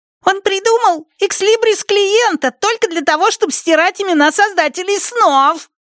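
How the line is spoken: Squeaky voice. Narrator (Russian): Пищал

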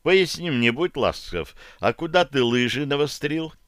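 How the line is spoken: Forced calm inquiry. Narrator (Russian): поинтересовался я, стараясь говорить спокойно и уравновешенно

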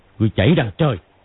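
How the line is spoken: Angry shout. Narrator (Vietnamese): Hoắc Đô quát

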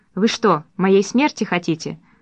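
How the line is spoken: Calm question. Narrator (Russian): спокойно спросил Хамовский

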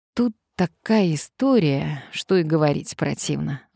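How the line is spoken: Sighing. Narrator (Russian): вздохнул Сарычев

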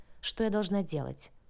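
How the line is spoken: Calm businesslike. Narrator (Russian): спросила я спокойно и по-деловому

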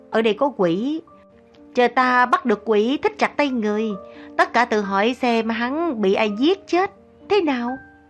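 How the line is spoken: Gleeful, smiling. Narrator (Vietnamese): Lý Liên Hoa mỉm cười khoái trá

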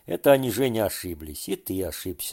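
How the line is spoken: Calm. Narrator (Russian): спокойно заговорил Паша

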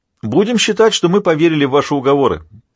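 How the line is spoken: Shouted. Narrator (Russian): прокричал пехотинец

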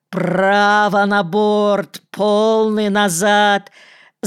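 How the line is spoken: Frantic, distorted shout. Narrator (Russian): закричал не своим голосом капитан

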